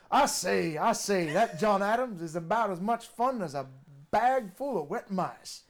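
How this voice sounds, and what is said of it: Foghorn Leghorn-style Southern drawl. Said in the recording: “So I do an accent, and if I'm drinking, I start sounding more and more like Foghorn Leghorn.”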